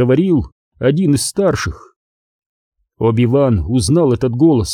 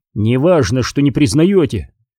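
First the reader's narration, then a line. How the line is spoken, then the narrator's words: Firm. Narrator (Russian): отвечал Оби-Ван твердым голосом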